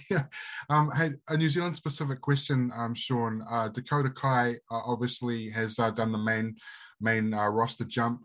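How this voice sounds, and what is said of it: Croaky voice. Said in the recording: “excuse me if my voice is croaky”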